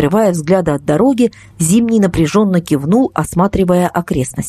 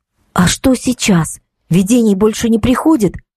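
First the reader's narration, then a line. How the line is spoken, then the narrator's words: Quiet question. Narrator (Russian): тихо спросила Катя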